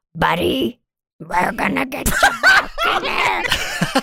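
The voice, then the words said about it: Sexy imitation of another character's voice. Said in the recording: “I didn't know you could do such a sexy voice ... that is my Dak impression”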